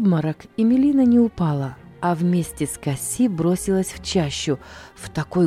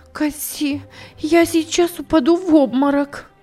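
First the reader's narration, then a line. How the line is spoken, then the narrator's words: Exclaimed. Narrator (Russian): она воскликнула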